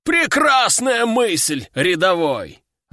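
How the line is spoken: Joyful veteran's exclamation. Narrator (Russian): радостно воскликнул ветеран

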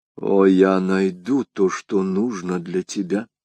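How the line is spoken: Whispered through teeth. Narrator (Russian): прошептала сквозь зубы миледи

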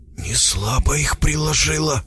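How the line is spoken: Whisper. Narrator (Russian): Гена говорил шепотом

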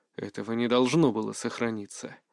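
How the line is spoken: Quiet, restrained. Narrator (Russian): тихо сказал я

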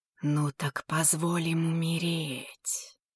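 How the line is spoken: Weak inner whisper. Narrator (Russian): прошептал слабый голос в темном и затуманенном сознании Цзэня

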